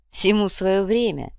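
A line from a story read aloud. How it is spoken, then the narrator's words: Laughing. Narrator (Russian): рассмеялся Схинки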